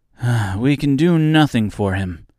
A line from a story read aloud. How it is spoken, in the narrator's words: said the Tin Woodman sadly